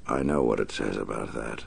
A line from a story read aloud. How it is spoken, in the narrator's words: the Batman said softly